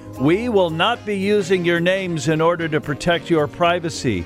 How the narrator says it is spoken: The receptionist yells out

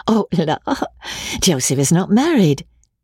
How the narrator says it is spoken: said Amelia, laughing again

